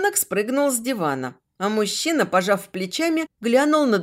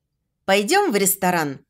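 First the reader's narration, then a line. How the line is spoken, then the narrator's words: Abrupt boy's voice. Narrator (Russian): резко сменил тему мальчик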